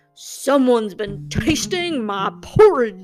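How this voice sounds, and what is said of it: Big deep papa bear voice. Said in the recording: “Said the papa bear in his great big voice.”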